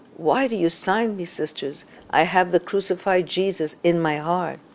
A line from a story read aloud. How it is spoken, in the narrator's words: she gently but firmly protested over and over again